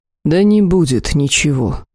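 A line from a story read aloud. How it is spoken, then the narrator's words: Tired interruption. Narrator (Russian): устало оборвал их господин Данес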